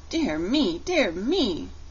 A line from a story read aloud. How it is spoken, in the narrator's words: cried the shaggy man